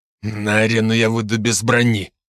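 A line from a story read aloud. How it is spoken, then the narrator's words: Viscount speaking through gritted teeth. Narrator (Russian): процедил сквозь зубы виконт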